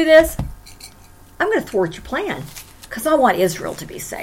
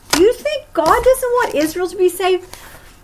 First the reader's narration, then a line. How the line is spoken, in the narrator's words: God laughed